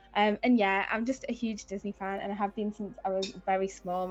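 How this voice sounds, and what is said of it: Newcastle English accent. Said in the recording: “I'm from Newcastle, as you might be able to tell from my accent.”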